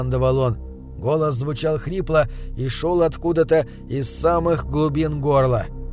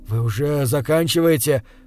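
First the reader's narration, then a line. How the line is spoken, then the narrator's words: Desperate breathless exhale. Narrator (Russian): в отчаянии выдохнул я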